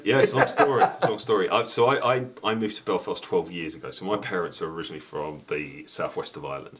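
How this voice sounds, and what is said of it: London accent. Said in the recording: “I was brought up in London, as you can hear from the accent.”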